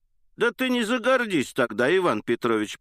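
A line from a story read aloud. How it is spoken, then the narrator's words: Laughing. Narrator (Russian): прибавила, смеясь Анна Андреевна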